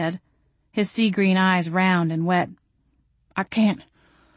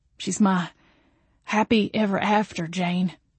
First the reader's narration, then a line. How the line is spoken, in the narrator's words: he said quietly